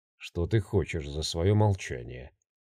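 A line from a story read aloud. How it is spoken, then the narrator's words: Barely restrained, through teeth. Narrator (Russian): процедил он сквозь зубы, едва контролируя себя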